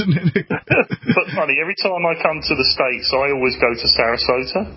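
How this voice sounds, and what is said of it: Posh Cockney London accent. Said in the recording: “I'm a posh Cockney”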